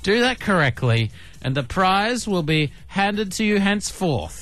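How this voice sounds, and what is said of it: Playful mock medieval accent. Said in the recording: “I just did a little medieval accent there just for fun.”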